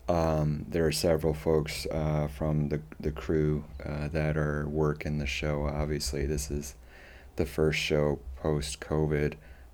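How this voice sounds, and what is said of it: Hoarse, tired voice. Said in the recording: “apologize for the voice ... is your voice hoarse”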